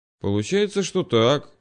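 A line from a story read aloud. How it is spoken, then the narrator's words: Mumbling. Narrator (Russian): вновь промямлил я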